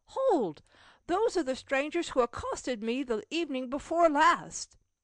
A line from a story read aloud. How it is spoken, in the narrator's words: Cecil could not help exclaiming